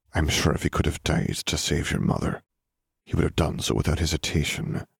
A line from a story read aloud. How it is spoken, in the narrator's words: Dumbledore murmured